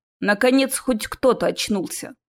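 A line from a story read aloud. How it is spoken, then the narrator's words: Displeased rumbling grumble. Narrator (Russian): недовольно пробурчал странный гремящий голос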